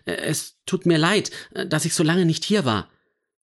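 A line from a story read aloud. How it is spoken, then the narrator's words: Stammering. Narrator (German): stotterte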